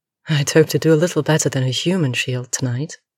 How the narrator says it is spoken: she says, her voice rich with humor

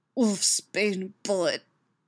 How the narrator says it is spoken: tells him through gritted teeth

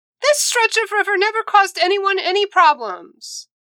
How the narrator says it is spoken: Wen Chao shouted back

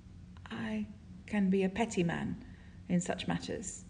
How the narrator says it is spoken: he says, his voice hoarse and quiet

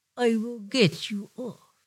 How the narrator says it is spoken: he murmurs

